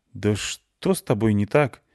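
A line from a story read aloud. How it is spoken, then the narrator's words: Hurt, offended. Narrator (Russian): обиженно сказала Клюся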